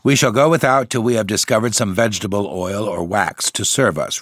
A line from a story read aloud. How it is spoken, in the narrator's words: replied Brother Timon in a decided tone